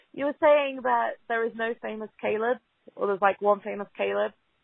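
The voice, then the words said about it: English accent. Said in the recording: “I'm calling from England, obviously, with a horrendous accent.”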